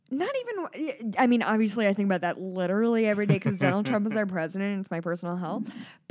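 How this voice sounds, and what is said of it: Midwestern American accent. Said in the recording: “have a Midwestern accent”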